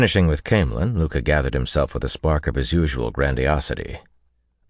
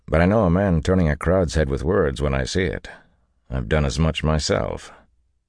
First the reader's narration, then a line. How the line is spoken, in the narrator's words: Tom said dryly